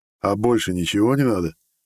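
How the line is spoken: Wry scoff. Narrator (Russian): хмыкнул я

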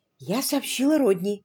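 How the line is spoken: Quick whisper. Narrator (Russian): быстро прошептала она

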